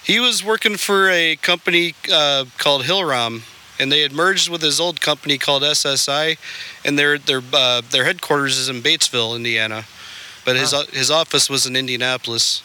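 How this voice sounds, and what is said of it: Slight Wisconsin accent. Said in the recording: “you may hear this through the microphone, but I still have an accent according to everyone around here. ... A little. ... I lived in Wisconsin.”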